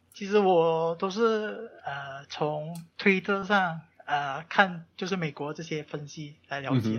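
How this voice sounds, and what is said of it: Malaysian Chinese accent. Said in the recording (Chinese): “听你的口音，你应该是在呃马来西亚”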